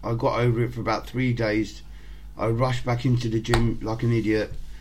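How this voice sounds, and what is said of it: Voice sounds a bit off, unwell. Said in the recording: “I'm not feeling too well, so my voice might sound a bit off. I just got over an illness”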